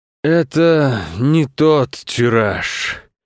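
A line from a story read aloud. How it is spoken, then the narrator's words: Father, weary. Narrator (Russian): устало сказал папа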